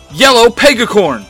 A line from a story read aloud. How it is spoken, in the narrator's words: Trini shouts